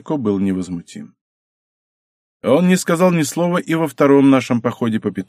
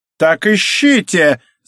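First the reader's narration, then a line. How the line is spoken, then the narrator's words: Shouted. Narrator (Russian): закричал Синико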